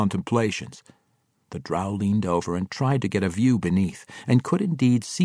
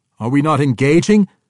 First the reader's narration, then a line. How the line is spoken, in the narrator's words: Drizzt yelled to her